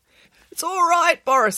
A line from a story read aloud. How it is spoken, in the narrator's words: squeaked Derek